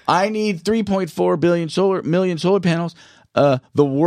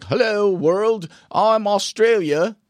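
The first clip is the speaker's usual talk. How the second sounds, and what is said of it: Poor put-on Australian accent. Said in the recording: “That's a terrible Australian accent”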